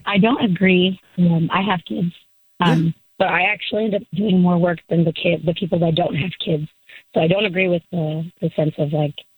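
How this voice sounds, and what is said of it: Voice sounds bad, strained. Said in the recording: “my voice is bad”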